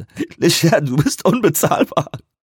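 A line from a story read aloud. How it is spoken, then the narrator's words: Gasping. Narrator (German): japste er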